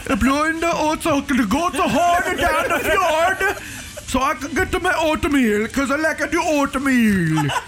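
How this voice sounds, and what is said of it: Put-on Swedish accent. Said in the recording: “he's Swedish ... who knew I could do a Swedish accent?”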